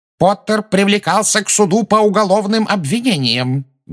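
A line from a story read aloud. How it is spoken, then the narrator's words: Loud. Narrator (Russian): громко сказала Амбридж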